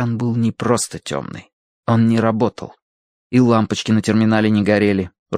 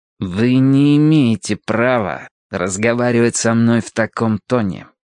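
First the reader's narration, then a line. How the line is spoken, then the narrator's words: Through gritted teeth. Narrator (Russian): процедил Гилкрист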